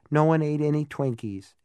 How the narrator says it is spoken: said a little sadly

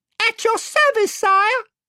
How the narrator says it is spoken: piped Reby Cheep

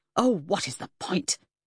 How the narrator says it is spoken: She spat

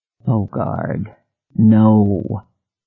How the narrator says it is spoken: his mind moaned

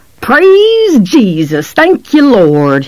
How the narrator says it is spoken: he bellowed in his rolling, trembling Jimmy Swaggart voice

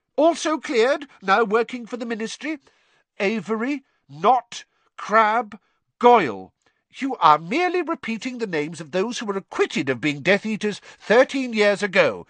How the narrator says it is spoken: said Fudge angrily

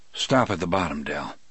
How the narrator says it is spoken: I told him in a low voice

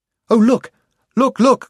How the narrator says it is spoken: cried Jill

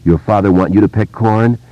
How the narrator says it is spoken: Henry asked angrily

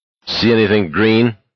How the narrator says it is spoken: Garrity asked irritably

